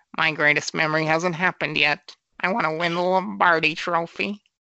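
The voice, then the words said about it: Imitates another person's voice. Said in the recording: “do my Martha voice... doing that voice... That's a perfect Martha”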